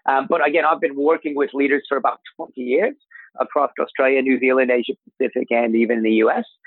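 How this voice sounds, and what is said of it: Mixed American and Australian accent. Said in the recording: “As some of the listeners can probably hear, I have a bit of an accent. ... I've been in Australia 23 years, but I actually grew up in America. Grew up in Michigan, up near Canada. So that's why the accent's kind of a little bit of a mix.”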